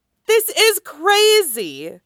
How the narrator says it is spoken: Danny shouts

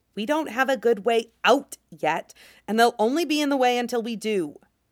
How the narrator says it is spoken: Shang Qinghua hisses

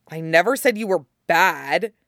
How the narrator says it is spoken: he says angrily

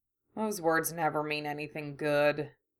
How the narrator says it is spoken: he grumbled

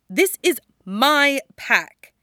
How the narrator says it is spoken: snaps

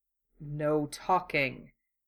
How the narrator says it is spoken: Hero ordered, in his deadliest voice

